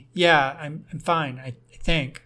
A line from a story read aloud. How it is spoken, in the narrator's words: I replied